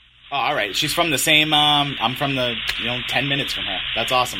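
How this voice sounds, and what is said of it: New England accent. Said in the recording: “is your wife a New Englander ... I can hear the accent.”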